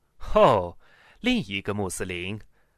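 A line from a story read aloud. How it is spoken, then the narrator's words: Laughing. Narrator (Chinese): 教授笑了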